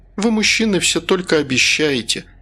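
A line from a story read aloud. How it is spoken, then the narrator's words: Bitter sigh. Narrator (Russian): горько вздохнула я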